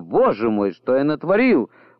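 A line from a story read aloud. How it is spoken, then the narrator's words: Exclaiming. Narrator (Russian): воскликнул отец Журден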